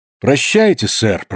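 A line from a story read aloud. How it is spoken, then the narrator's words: Calm speech. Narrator (Russian): промолвил он спокойно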